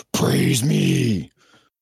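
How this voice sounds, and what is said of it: Batman-style character voice. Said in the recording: “my best Batman impression”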